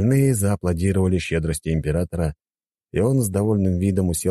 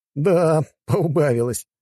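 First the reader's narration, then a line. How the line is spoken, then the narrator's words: Short laugh. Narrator (Russian): хохотнул я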